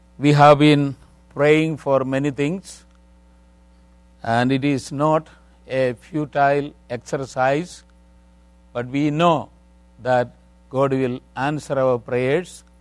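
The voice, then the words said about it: Indian English accent. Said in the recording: “my accent is not American, not British, but Indian English.”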